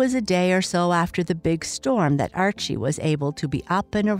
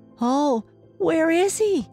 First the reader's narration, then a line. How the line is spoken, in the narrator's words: cried the little boy